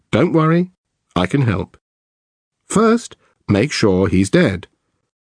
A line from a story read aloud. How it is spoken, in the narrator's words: The operator, in a calm voice, says